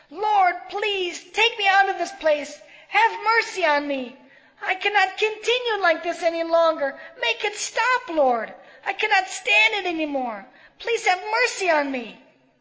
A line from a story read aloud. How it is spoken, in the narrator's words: She shouted